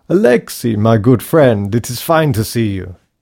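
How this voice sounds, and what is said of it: Thick East European accent. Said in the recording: “had a thick East European accent”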